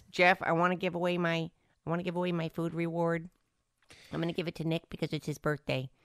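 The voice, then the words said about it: Imitates another person's voice. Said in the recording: “That's my Sarah impersonation”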